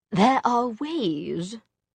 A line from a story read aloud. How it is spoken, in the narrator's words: Charlotte said slowly